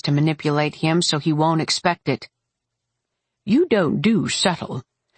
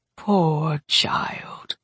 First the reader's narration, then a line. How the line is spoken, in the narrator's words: she whispered, her voice so soft